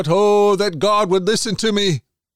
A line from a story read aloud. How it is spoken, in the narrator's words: shout